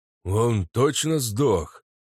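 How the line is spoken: Dwarf's hoarse question. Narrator (Russian): Хрипло спросил гном

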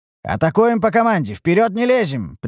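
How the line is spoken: Sharp shout. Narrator (Russian): прикрикнул я

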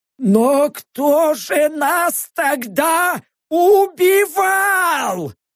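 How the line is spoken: Sudden yell. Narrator (Russian): Заорал вдруг Норм

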